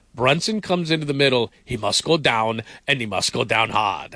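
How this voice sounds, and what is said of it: Deliberately poor movie-character impression. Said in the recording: “that was a terrible impression... terrible... like Drago”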